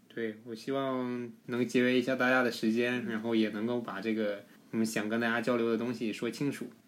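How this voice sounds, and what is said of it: Shandong-accented Mandarin. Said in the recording (Chinese): “口音是不好改 ... 鲁味普通话嘛，多有特色 ... 山东鲁味普通话”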